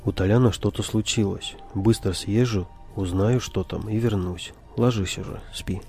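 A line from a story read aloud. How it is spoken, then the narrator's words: Calm. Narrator (Russian): спокойно проговорил Саша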